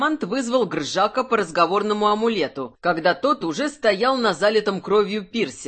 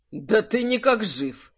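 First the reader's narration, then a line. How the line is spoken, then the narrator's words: Lazy surprise. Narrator (Russian): лениво удивился демонолог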